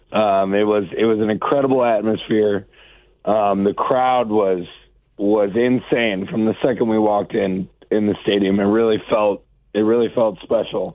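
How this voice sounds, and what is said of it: Slightly hoarse, worn-out voice. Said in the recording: “you can tell my voice is a little gone”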